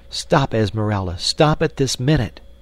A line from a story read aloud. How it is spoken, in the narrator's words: she cried